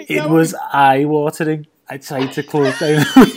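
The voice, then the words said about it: David Moyes impression. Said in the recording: “I didn't realise David Moyes did this audiobook. It was fantastic.”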